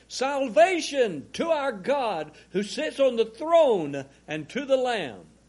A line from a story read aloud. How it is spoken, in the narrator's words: they cried out with a loud voice, saying